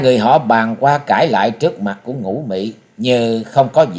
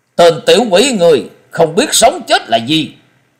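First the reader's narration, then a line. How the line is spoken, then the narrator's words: Angry shout in unison. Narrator (Vietnamese): Năm lão đồng thanh phẫn nộ quát lớn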